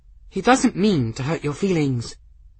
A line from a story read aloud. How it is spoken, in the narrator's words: said the girl, in an apologetic tone